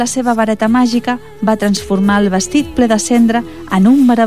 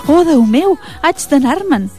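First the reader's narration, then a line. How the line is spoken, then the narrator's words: Exclaimed. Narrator (Catalan): va exclamar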